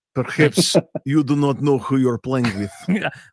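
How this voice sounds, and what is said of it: Heavy bad-guy Russian accent. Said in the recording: “some dude with like, give me like a heavy bad guy Russian accent”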